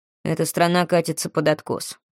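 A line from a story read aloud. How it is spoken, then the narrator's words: Grumble. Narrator (Russian): проворчал Крис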